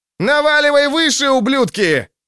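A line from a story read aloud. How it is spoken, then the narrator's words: Yelling. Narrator (Russian): орал тот, кого называли Искрой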